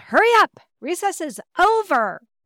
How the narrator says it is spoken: The third grade teacher on duty, who was not aware of my heart condition, yelled

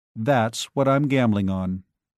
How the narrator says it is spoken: Joe said evenly

